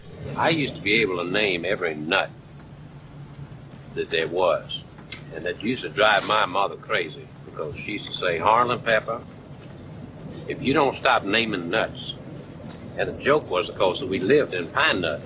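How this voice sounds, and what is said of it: Mumbled Southern American character accent. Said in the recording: “Benoit Blanc's accent stems from the character Christopher Guest played in Best in Show ... mumble the following routine”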